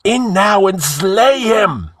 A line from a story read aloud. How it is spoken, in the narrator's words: yelled Escalante